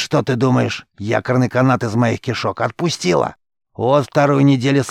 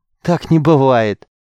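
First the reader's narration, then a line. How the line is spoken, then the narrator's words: Gasping with laughter. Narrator (Russian): задыхаясь от хохота, выдавил Рис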